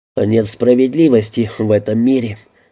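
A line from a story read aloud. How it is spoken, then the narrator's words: Sighing. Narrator (Russian): вздохнул Мэйр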